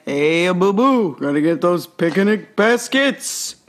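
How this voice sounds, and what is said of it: Good Yogi Bear cartoon voice. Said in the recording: “Sound a little bit like Yogi Bear ... That's a good impression.”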